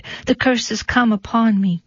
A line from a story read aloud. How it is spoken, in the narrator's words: cried the Lady of Shalott